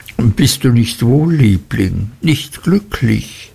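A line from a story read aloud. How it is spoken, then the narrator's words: Sobbing. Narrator (German): schluchzte sie an meiner Schulter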